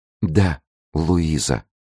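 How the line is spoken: Whispered. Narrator (Russian): прошептала она

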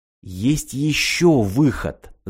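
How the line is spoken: Conspiratorial female whisper. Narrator (Russian): заговорщицки прошептала Ирина

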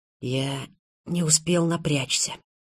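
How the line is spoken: Whisper. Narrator (Russian): прошептал Заров

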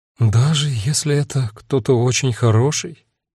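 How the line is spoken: Dejected question. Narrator (Russian): упавшим голосом спросила Агата

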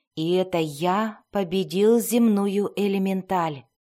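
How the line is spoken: Even, unboastful voice. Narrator (Russian): продолжал он ровным голосом, без тени хвастовства

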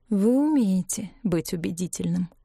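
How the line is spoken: Tired woman. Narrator (Russian): устало сказала Элеонора

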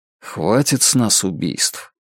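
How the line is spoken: Quiet. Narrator (Russian): Клинт тихо сказал

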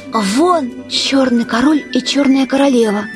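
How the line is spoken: Careful whisper. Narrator (Russian): сказала Алиса шепотом, чтобы не спугнуть их

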